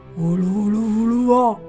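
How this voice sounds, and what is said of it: Low-pitched alien voice. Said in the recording (Chinese): “外星人用低低的声音说”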